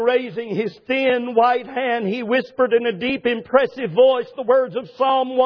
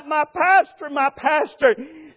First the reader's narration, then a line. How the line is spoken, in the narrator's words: I bent over him and sobbed out